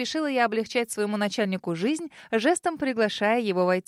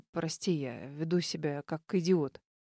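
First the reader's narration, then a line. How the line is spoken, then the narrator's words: Mumbling. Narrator (Russian): Пробормотал Норман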